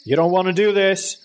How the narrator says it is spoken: Dad yelled

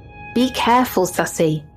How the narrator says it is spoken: my grandma yell behind me

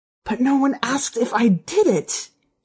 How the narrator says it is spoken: she said, her voice a hoarse whisper

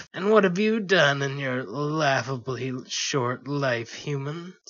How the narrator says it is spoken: Sparkles spat back

